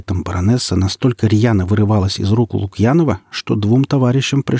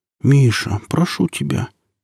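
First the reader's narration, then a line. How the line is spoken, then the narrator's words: Quiet reply. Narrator (Russian): тихо ответила Ружина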